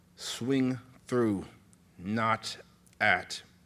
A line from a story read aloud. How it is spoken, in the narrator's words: Melancholia said